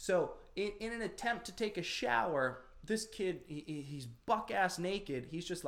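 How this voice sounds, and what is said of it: Usual voice. Nothing is said of it.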